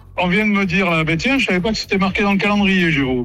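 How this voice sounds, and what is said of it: Slight regional French accent. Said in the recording (French): “Vous avez un peu d'accent, non? Vous avez un petit accent? ... je suis du Cantal”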